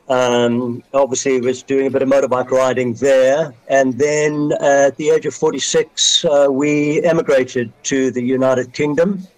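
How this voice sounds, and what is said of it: South African English accent. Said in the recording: “you probably hear from my accent that it's not a normal British accent. ... I was born in South Africa”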